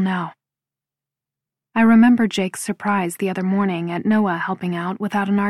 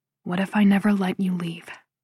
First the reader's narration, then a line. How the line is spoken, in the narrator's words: He murmurs, his breath tickling my lips